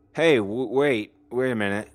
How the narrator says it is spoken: Jared said in his drunken stammer

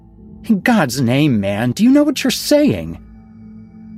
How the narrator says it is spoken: Lee laughed harshly

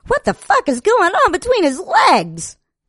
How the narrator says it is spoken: another cried out

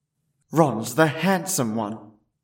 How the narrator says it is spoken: muttered Harry as he reluctantly

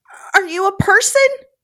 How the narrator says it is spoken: Her heartbeat racing, Beth squeaked out

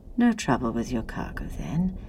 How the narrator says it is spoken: the sheriff asked quietly

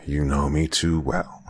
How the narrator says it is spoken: she sighed

